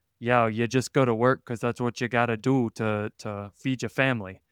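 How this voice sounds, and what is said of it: Weak Michigan accent drifting Bronx. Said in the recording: “My Michigan accent's not great. It kind of became a Bronx thing there ... it's a difficult accent.”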